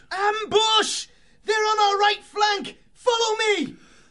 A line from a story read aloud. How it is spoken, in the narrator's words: the mouse in the lead shouted